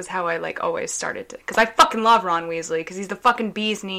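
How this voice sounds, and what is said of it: Usual voice. Nothing is said of it.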